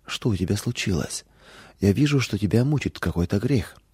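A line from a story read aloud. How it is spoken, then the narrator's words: Soft motherly question. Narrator (Russian): мама мягко спросила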